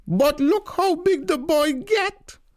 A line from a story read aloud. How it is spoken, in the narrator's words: Tanti bawl